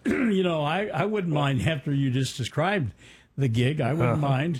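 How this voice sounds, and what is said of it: Usual voice. Nothing is said of it.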